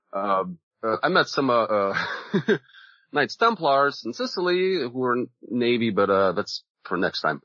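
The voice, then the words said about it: Polish or Russian-sounding accent. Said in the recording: “you got an accent. You must either be from Poland or Russia... he's not American for sure”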